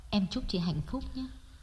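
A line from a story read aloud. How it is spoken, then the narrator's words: Soft whisper. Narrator (Vietnamese): nói nhỏ như thì thầm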